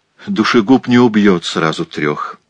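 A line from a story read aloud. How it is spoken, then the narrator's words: Plain. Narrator (Russian): ответила Лавиния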